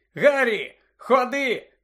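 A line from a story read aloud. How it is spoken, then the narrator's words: Shouted. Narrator (Ukrainian): крикнув Джордж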